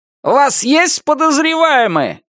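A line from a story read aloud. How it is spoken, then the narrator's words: Shout. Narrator (Russian): крикнул кто-то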